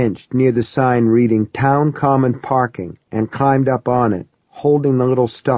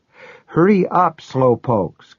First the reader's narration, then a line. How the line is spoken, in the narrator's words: Kyra cried, bouncing on the bench